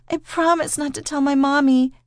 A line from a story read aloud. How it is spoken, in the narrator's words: she whimpered